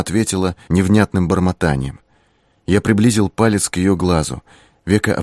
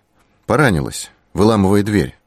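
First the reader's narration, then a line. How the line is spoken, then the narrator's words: Dry, curt. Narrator (Russian): сказал я сухо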